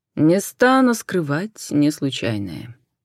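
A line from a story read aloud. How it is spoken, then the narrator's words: Calm reply. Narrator (Russian): Спокойно отозвался Медичи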